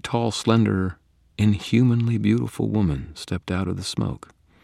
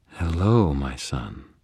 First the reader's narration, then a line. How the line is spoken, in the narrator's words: Leah purred, evidently unaffected by the smoke and unconcerned about the fire